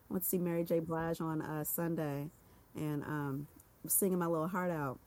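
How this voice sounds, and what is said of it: Hoarse, raspy voice. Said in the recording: “I lost my voice, so I'm giving a little rasp, giving Anita Baker with the vocals today”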